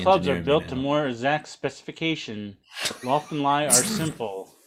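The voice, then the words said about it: Flat robotic reading voice. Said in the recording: “You didn't even try to disguise it. ... You sound like Teddy Ruxpinners. ... I thought you were like an automaton for a second.”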